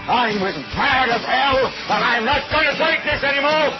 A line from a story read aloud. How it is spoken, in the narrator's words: yell